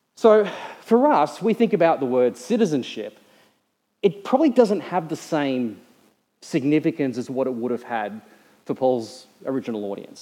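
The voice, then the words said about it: Australian accent. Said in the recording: “I have an Australian accent. You know, I try to shorten every word down to one syllable in my speech because it's just what we do as Australians.”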